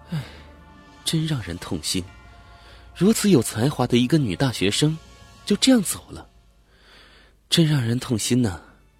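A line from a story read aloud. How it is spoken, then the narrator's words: Sighing woman. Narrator (Chinese): 女警察叹道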